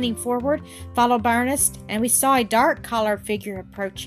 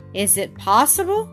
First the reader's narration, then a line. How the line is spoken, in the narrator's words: said I